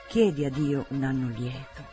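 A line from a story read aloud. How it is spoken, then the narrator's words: Motherly tone. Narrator (Italian): disse in tono materno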